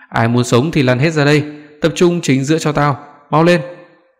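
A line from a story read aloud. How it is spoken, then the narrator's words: Fierce loud shouting. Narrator (Vietnamese): Tên đầu đàn vẻ mặt hung tợn, quát tháo ầm lên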